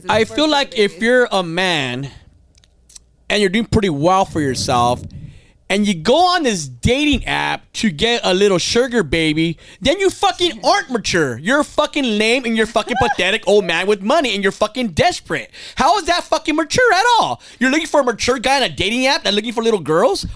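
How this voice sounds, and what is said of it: Yelling, angry raised voice. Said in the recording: “Why are you yelling”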